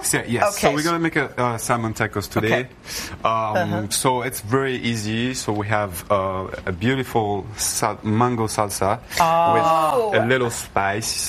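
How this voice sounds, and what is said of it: Speaks with a noticeable accent. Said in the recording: “We love your accent.”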